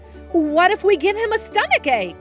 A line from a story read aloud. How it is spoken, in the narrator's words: before he could figure out if it was a good idea, he blurted out